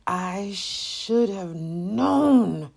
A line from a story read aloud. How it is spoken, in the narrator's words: Zania growled